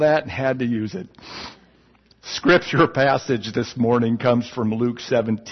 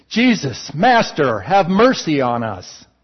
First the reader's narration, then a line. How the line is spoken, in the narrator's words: They stood at a distance and called out in a loud voice